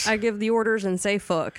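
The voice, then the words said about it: Put-on southern accent. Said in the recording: “southern accent”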